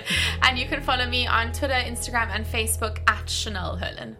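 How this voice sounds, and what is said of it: South African accent. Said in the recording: “I'm from South Africa, so that's where the accent's from, because everyone thinks I'm Australian”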